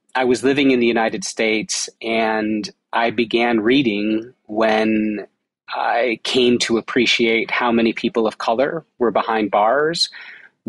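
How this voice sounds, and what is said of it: American English accent. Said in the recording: “an American, which you can tell by my accent.”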